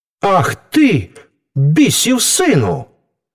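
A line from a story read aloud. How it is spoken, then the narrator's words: Angry shout. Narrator (Ukrainian): гнівно вигукнув Франческо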